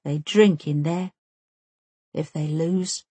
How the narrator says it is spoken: Omar says in a quiet voice

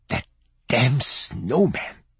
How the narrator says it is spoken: she whispered

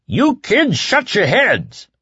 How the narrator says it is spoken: yelled

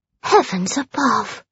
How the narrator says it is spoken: she murmured

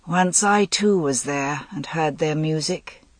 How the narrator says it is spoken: he said, in a distant, brooding voice

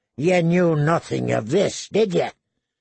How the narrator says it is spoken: he said to John coldly

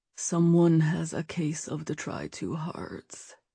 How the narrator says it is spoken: Nate said in a low voice

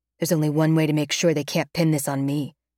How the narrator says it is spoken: he remarks icily

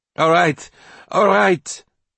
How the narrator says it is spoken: Nicole shouted out loud

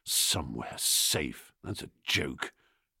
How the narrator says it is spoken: Michael, muttering to himself

